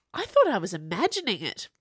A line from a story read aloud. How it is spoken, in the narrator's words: blurted Chauve